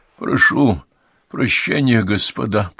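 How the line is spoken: Hoarse rasp. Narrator (Russian): прохрипел Хьюм

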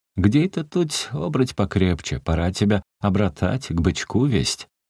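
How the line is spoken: Strange ringing laughter. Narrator (Russian): Она странно и звонко смеялась

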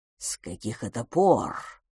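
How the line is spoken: Quiet. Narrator (Russian): проговорил он тихо

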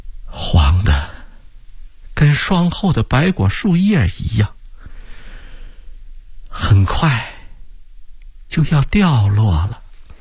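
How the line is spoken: Tearful sighing. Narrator (Chinese): 吴季平噙着两眼热泪，叹息地说

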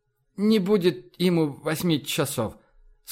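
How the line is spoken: Noticeably drunk voice. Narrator (Russian): сказала она ощутимо пьяным голосом

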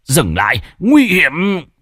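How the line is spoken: Cold faint laugh. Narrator (Vietnamese): Xích Đế cười nhạt

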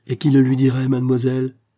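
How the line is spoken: Exclaiming. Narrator (French): s'écria Raphaël

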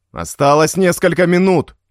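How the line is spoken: Nervous shouting. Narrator (Russian): прокричал развощекий, нервно барабаня пальцами по столу

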